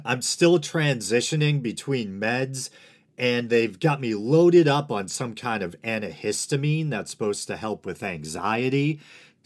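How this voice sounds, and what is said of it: Dry-sounding voice, slower speech. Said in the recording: “my voice sounds a bit off ... my voice might sound a bit dried out, and I might sound a bit slow or slower than usual”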